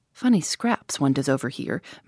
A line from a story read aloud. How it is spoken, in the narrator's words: murmured Tommy